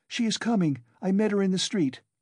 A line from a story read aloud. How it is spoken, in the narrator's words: She came in panting from running so fast ... said